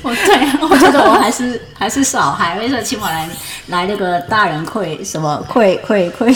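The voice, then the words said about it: Hong Kong accent in Mandarin. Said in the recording (Chinese): “大家刚刚听 ... 的口音，有没有觉得就是好像跟台湾的发音有点不太一样？对，没错，他他是香港人”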